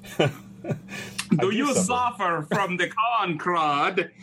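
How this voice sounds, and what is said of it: Put-on Lithuanian accent. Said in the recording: “Lithuanian accent.”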